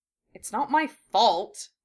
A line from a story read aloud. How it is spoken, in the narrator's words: Harry muttered